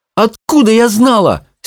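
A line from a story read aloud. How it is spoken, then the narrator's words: Emotional exclamation. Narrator (Russian): с чувством воскликнула Чармайн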